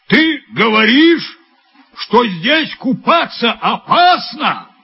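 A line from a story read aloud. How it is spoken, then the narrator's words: Shouted. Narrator (Russian): крикнул Пеппи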